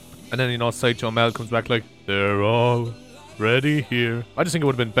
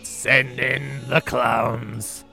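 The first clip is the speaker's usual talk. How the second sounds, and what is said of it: Krusty the Clown impression. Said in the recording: “really good Krusty impression”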